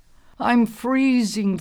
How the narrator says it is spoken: Thorny moaned

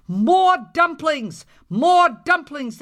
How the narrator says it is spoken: they shouted

